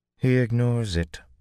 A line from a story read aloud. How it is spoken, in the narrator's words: Min said flatly